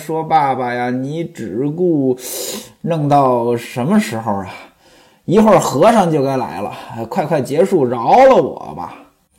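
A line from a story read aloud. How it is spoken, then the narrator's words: Breathless speech. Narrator (Chinese): 潘金莲是一边喘气一边说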